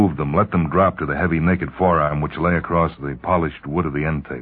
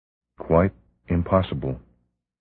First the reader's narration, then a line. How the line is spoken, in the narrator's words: she murmured